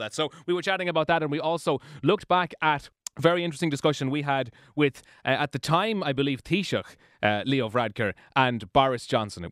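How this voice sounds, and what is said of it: Irish accent. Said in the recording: “I have put on an Irish accent ... You have been pretending to be Irish.”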